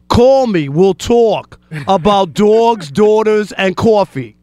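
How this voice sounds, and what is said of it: Put-on New York accent. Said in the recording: “Here's the New York accent for people who don't know.”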